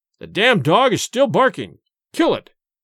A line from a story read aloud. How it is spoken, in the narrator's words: cried Gorcha